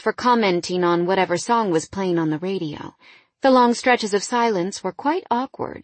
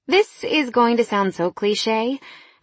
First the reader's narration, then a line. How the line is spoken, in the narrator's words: I sighed